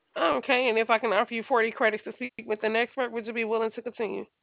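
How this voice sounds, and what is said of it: Very fast speech. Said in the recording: “you're talking so fast,”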